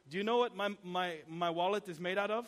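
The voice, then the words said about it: Thick Czech accent. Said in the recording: “this old uh, Czech a guy from the Czech Republic ... accent, real thick accent.”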